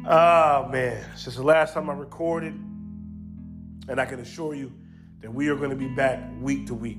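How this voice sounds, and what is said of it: Unwell, under-the-weather voice. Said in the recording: “excuse my voice. I'm a little under the weather”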